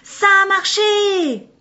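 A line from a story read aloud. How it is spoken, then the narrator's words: Little girl exclaiming. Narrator (French): s'exclama la petite fille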